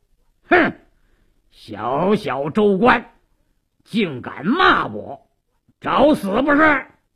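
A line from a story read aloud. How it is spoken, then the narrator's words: Stern shout. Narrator (Chinese): 鲁斋郎厉声喝道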